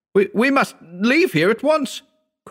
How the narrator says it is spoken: cried Howard

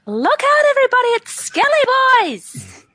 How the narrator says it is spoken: She yells out

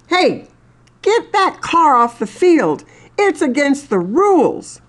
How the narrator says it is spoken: yells

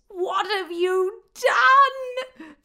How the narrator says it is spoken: Tave squealed

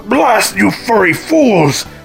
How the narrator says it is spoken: Robotnik bellowed as he zipped away

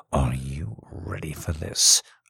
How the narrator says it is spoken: say, my voice almost a whisper

